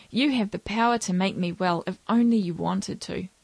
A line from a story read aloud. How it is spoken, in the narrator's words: He begged